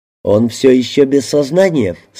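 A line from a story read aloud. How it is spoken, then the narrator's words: Plain. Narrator (Russian): спросил я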